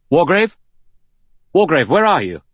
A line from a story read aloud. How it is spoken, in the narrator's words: Armstrong called out loudly